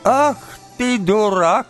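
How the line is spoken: Old woman shouting. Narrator (Russian): этакой закричала на него старуха

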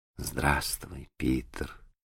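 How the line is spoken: Quiet. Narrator (Russian): ответила она тихо

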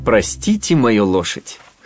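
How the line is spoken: Short laugh. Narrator (Russian): хохотнул Феб

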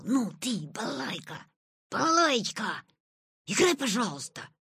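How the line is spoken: Whispered reply. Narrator (Russian): ответил он и зашептал

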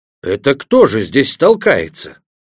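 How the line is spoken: Yelling at full volume. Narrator (Russian): Гек завопил, что было мочи

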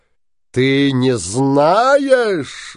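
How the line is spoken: Shouting. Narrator (Russian): закричал синяя борода

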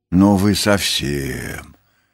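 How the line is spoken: Sulky grumble. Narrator (Russian): буркнула Нюша

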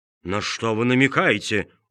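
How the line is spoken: Rude, cutting interruption. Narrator (Russian): грубо оборвал его Помидор

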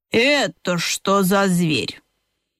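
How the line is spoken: Displeased grumble. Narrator (Russian): ежиха недовольно проворчала

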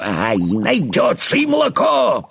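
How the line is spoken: Shouted. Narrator (Russian): прокричала гусеница

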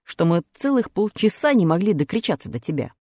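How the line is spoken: Angry. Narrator (Russian): сердито ответил страж ворот

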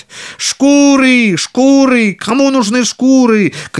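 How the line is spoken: Street vendor shouting. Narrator (Russian): кричал он по улицам

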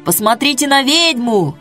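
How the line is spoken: Crowd shouting. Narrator (Russian): кричали в толпе

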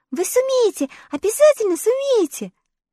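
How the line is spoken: Joyful girl's cry. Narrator (Russian): радостно вскрикнула Элли

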